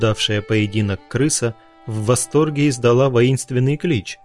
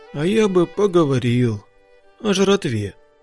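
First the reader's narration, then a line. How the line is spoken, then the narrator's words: Sad male voice. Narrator (Russian): сказал красавчик печально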